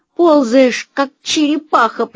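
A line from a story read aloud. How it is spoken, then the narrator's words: Angry wheeze. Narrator (Russian): просипела она сердито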